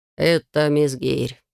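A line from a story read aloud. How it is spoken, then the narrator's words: Perfectly calm. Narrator (Russian): совершенно спокойно сообщает Дубов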